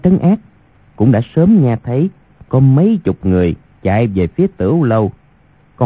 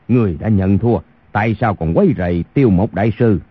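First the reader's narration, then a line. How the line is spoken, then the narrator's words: Angry. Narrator (Vietnamese): Kha Trấn Ác tức giận nói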